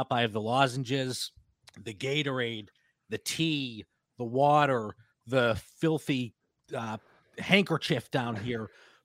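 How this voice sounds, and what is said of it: Congested, stuffed-up voice. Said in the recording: “As you can tell from my voice, I'm a little stuffed up ... Just a little head cold”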